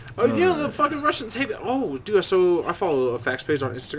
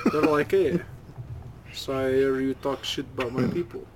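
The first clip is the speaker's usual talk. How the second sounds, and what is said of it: Put-on Russian accent. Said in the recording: “That's more of a Russian accent”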